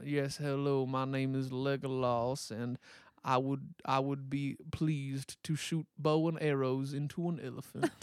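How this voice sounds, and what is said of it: Put-on Southern drawl. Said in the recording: “They just have a lovely southern drawl”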